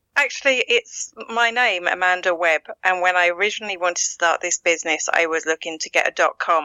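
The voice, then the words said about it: Essex English accent with Irish tinge. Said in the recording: “I'm originally from Essex in England ... a lot of people think I'm from Australia or New Zealand ... the Essex accent has a bit of a twang to it ... mix that with a bit of an Irish accent ... an international accent”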